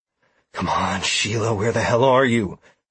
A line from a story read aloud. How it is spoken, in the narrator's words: I said in a low voice